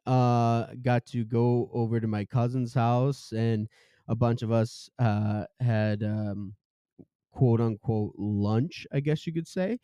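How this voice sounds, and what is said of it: Voice still affected by a cold. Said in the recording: “I was battling a cold, and I'm coming off of that right now, if you can hear it in my voice.”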